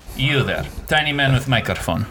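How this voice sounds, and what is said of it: Put-on Russian accent, demon character. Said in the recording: “I have a Russian accent, not related. ... Established narrative that I have Russian accent as demon.”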